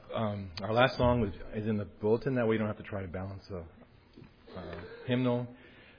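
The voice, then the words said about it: Voice nearly gone. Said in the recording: “I lost my voice.”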